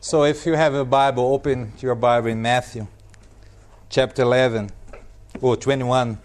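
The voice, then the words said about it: Put-on Brazilian accent. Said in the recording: “Let's read this passage with a Brazilian accent.”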